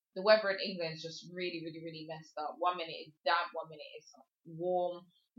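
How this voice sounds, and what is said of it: English accent. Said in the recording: “I am from England, if you cannot tell my accent.”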